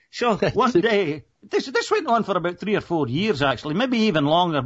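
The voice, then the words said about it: Scottish accent. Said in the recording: “my accent ... a Scottish accent”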